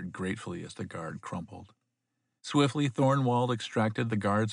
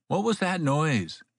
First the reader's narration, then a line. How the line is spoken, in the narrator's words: he asked loudly